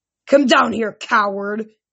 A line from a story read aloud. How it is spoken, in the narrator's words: Antaeus bellowed